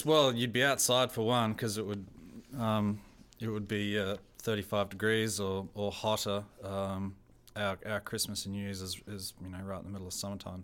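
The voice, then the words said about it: Australian accent. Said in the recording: “My accent is very much Australian. ... I have an Australian accent. ... I don't have any New Zealand accent.”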